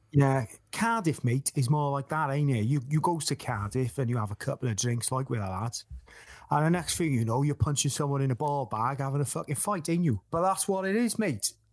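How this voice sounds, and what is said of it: Put-on Cardiff accent. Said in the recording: “Can you do a Cardiff accent?”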